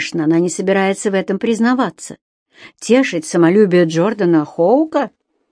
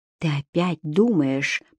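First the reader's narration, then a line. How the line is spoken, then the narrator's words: Whisper. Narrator (Russian): прошептал Джордан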